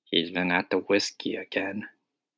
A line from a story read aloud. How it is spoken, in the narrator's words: whispered the second officer